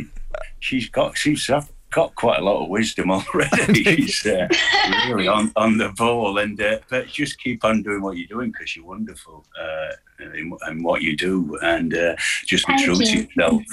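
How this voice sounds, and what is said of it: Northern English accent. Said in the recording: “you hold on to your accent, Northern England accent.”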